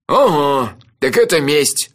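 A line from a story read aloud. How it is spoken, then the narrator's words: Wry snort. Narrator (Russian): хмыкнул Анчифа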